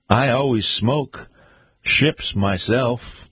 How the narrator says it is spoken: answered

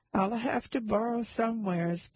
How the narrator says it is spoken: begged someone as he retreated down the stairs

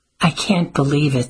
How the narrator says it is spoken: sighed Addie

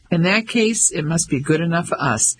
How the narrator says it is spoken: Ellie laughed

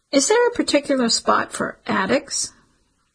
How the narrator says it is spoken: The man laughed

